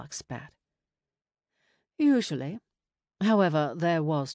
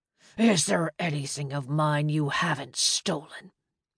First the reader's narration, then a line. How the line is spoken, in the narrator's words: Moloch spat